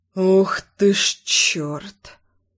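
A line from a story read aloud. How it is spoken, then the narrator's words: Muttering. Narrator (Russian): Пробормотал я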